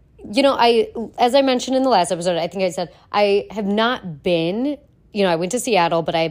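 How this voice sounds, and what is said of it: Voice sounds sick, unwell. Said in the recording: “I'm sure you can hear it in my voice, but I am unwell”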